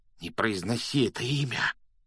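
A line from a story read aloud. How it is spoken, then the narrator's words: Frightened whisper. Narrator (Russian): испуганным шепотом попросил Рон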